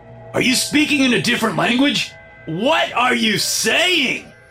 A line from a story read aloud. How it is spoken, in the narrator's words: his savage yell